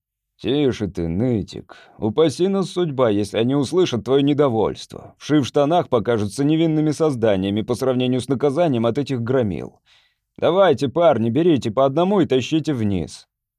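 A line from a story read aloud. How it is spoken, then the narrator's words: Angry bass voice, fisherman. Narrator (Russian): сказал один из рыбаков сердитым басом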